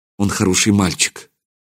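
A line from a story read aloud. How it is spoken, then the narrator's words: Quiet. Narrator (Russian): Тихо сказала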